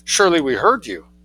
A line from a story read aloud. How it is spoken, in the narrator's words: exclaimed Meng Thua